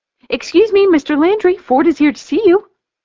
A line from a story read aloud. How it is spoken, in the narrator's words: Raza chirps through the line